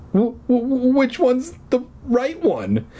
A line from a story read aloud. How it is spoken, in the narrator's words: He stammered